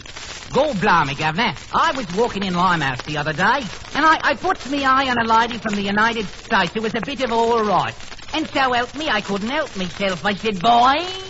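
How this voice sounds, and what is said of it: Strong imitated Cockney accent. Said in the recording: “An Englishman. ... Limey or Cockney, that's exactly right. ... Weren't they strong?”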